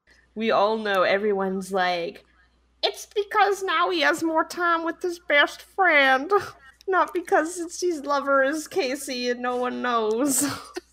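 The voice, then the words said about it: Put-on Southern American accent. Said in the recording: “Why do they have like a southern accent? ... I was doing some Gone with the Wind shit.”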